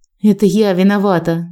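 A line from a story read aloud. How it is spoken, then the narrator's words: Sighing. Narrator (Russian): вздохнула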